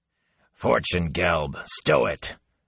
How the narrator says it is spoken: growled a man

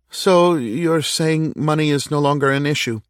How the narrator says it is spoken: Kevin said, his voice shaking a little

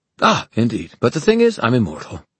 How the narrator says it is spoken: Magnus said cheerfully

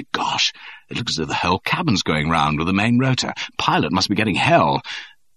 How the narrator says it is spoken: said, and then excitedly

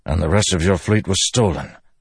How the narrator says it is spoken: Dalinar said with a grunt

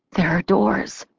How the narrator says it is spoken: I croaked, surprised at myself

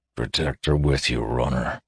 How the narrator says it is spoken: muttered the guard

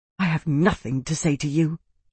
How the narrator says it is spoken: Amara whispered, heated

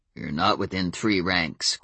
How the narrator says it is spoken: growled

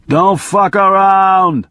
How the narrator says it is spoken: he shouted

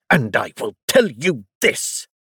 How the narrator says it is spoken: the Duke added furiously

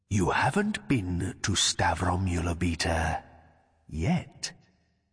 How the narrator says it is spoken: he whispered

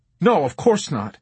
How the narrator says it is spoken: he blurted out

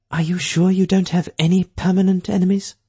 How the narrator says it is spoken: Tolvern asked nervously

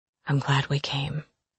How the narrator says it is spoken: he whispered to me

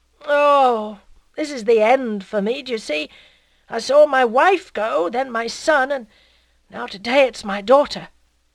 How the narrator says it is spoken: with a loud groan that shook his whole chest

